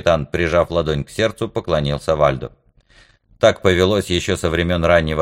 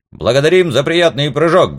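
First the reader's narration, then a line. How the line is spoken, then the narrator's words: Barked in unison. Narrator (Russian): гаркнули все мы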